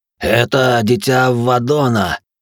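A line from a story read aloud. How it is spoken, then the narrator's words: Hoarse rasp. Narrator (Russian): прохрипел священник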